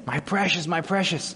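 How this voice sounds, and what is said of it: Bad Gollum impression. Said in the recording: “Gollum ... he laments it ... that's a bad impersonation.”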